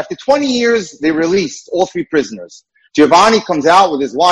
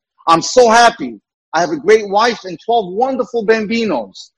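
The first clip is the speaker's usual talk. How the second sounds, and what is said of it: Put-on Italian accent. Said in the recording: “in his Italian accent”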